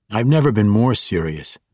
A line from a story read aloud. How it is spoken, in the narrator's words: Drizzt answered firmly